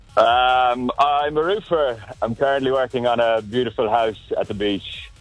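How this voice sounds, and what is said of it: Irish accent. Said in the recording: “You got yourself an accent, do you? ... Yeah, a little bit. Yeah, Irish. ... I don't understand a bloody word you're saying.”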